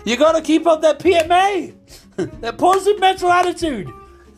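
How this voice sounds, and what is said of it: Put-on Irish accent. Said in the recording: “what's the best Irish accent I can do here? ... I hope I didn't butcher that accent”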